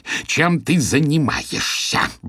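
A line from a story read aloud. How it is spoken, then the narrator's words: Hissing. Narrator (Russian): прошипел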